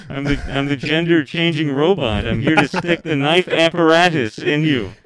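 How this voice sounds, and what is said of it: Robotic voice, knockoff cartoon robot. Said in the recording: “it's Stephen Hawking ... You sound like a Chinese knockoff version from Futurama of Bender”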